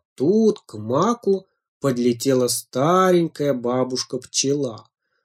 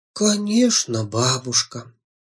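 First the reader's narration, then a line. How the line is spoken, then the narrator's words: Quiet. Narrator (Russian): тихо сказала Жужа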